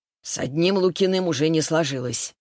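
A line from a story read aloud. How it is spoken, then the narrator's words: Grumbling. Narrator (Russian): проворчал он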